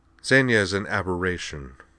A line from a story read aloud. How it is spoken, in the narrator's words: said Cora coldly